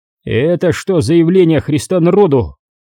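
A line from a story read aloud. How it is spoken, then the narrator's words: Menacing bark. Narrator (Russian): Грозно рявкнул на бабу комбат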